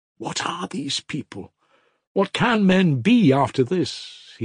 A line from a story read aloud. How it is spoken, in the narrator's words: he exclaimed incoherently, in bitter despondency, almost despair